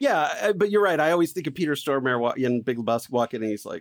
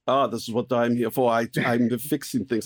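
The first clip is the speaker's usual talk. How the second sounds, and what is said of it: Terrible put-on foreign accent. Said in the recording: “which is a terrible accent.”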